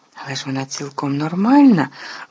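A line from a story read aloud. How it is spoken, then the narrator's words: Trembling exclamation. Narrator (Ukrainian): вигукнув Гаррі тремтячим голосом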